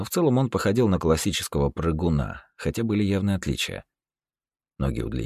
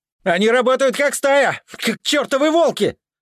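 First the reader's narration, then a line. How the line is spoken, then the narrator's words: Shouting. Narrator (Russian): кричал Макс, отстреливаясь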